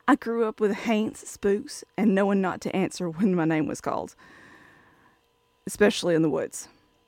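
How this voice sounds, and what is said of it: Southern US accent, Alabama. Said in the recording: “As you can probably tell from my accent, I'm from the South, Alabama to be precise”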